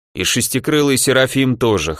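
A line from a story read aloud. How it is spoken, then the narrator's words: Interlocutor snorting. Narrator (Russian): хмыкнул собеседник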